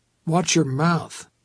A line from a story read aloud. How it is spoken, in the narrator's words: said